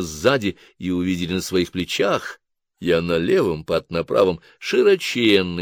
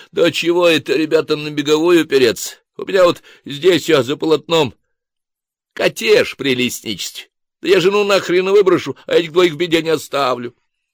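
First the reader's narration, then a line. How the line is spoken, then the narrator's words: Loud declaration. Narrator (Russian): некто в соломенной шляпе громко заявил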